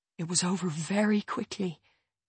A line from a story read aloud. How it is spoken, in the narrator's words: Jess says, her voice growing quieter